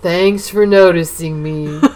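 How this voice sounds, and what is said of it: Imitates Eeyore the donkey's voice. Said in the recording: “that famous donkey Eeyore ... my best Eeyore impression”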